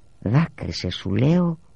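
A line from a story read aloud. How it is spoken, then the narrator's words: Distant whisper. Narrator (Greek): ήρθε απόμακρη στα αυτιά μου η ψιθυριστή φωνή της Βίτος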